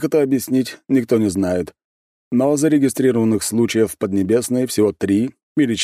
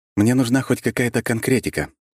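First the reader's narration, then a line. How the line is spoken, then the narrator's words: Calm. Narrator (Russian): спокойно произнес я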